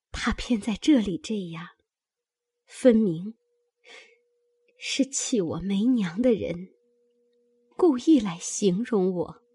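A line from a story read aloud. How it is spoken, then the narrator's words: Tearful sigh. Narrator (Chinese): 黛玉流泪叹道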